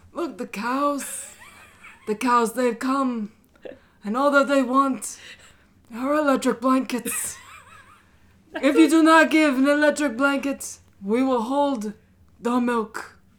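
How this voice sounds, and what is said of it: Godfather impression. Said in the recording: “best Godfather impression ... Can you do that as a godfather?”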